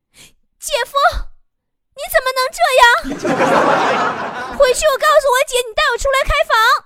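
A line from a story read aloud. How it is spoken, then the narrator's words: Resentful woman shouting. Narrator (Chinese): 俺老婆就有怨的小眼神儿啊，扯嗓门跟俺喊啊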